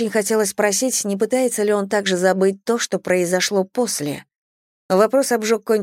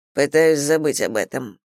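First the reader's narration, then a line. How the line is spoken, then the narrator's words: Dry. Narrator (Russian): сухо сказал он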